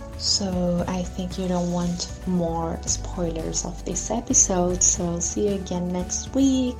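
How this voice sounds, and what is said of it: Strange-sounding accent. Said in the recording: “sorry for my weird, strange accent”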